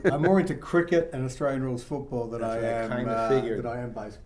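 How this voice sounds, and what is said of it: Non-American accent. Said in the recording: “as you can tell by the accent.”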